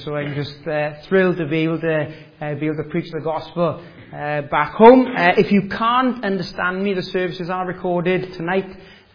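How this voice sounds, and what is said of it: Welsh accent. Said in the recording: “the accent is not a local accent. I was born and bred in Wales”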